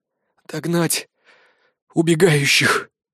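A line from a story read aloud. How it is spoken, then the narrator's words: Strained, forced out. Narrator (Russian): выдавил я из себя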